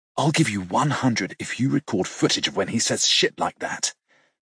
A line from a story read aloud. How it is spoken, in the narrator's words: he leans in to whisper